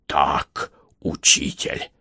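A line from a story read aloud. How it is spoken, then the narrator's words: Whispered confirmation. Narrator (Russian): шепотом подтвердил Александр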